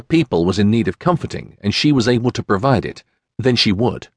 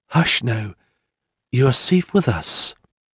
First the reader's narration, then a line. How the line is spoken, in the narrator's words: bent forward to whisper